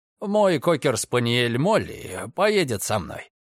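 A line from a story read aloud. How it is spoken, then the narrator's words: Plain. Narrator (Russian): сказал я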